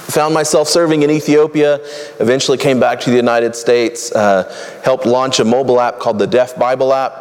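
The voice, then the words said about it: Cajun Southern American accent. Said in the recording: “I'm from Louisiana ... I kind of go in and out of kind of a Cajun Southern accent.”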